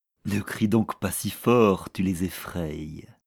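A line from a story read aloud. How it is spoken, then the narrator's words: Plain. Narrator (French): lui dit Boris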